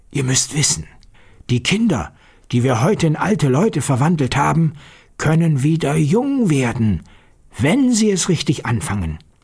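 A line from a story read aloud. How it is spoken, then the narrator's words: Quiet voice. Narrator (German): sprach mit leiser Stimme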